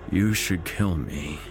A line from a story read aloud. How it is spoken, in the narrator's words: Terrence sighed